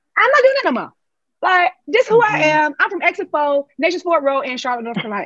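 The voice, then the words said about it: African-American English, North Carolina accent. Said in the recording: “this is how we talk ... I speak in a different way, in a tone, in a way that is my culture. I speak in African-American dialect”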